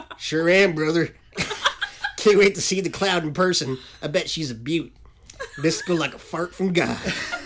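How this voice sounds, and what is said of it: Wrestler hype man style voice. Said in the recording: “entirely unconfident in my Messier accent and used a wrestler hype man style dialect.”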